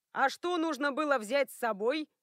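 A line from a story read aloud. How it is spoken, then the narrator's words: Shout. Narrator (Russian): крикнул Рекс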